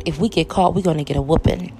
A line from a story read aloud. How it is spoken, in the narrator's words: Daryl whispered